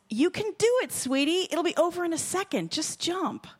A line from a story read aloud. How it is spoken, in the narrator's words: Your mom yells